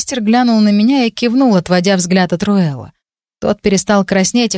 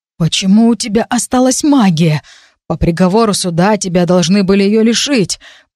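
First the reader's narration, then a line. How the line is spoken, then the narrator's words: Breathless wheeze. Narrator (Russian): пытаясь отдышаться, просипел Руэл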